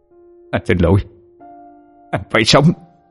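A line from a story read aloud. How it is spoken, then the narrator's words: Cold. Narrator (Vietnamese): chàng trai ánh mắt lạnh lùng nói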